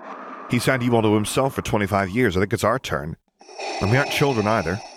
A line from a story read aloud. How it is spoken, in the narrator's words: added testily